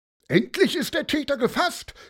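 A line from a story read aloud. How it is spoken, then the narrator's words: Loud cheering. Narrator (German): jubelte besonders laut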